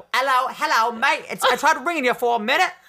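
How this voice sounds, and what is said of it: Put-on British accent. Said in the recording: “Maybe I'll just talk in my British accent. ... You be someone British. ... I'll be Adele.”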